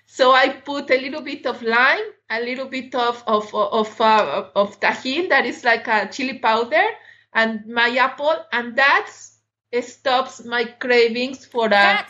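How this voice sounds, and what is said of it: Latin American accent. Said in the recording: “I am Latin, so, and you could have guessed it with my accent.”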